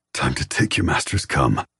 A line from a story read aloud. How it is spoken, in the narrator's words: he pants, his tone urgent